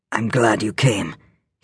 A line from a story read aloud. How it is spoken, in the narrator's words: said huskily